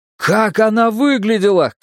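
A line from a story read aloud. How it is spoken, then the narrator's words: Shout. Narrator (Russian): крикнул я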